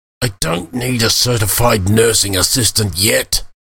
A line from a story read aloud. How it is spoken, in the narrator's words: Khalid growled as he got to his hands and knees, muttering